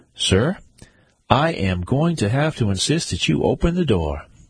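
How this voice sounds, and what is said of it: Raised, louder voice. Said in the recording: “raised my voice.”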